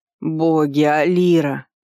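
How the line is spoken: Doomed groan. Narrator (Russian): обреченно простонал Вардер

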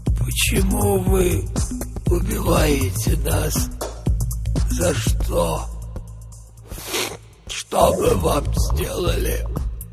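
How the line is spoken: Old man whispering. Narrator (Russian): Старик шептал

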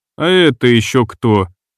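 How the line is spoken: Lazy, indifferent question. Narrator (Russian): держа равнодушное выражение лица и тон, лениво поинтересовался я

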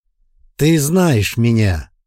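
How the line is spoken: Loud. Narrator (Russian): Говорил громко, чтобы слышали все

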